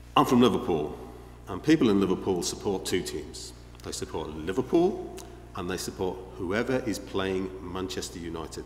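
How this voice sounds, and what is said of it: Regional English accent. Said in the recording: “you may have picked up my accent, I don't know. I don't know if it's obvious.”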